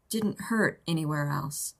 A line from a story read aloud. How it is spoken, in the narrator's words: she murmured